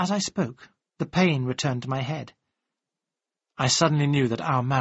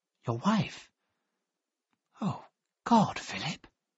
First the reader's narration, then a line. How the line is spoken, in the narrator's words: she whispered